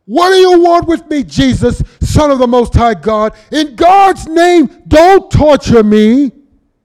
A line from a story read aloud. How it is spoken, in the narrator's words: he ran and fell on his knees in front of him, shouted at the top of his voice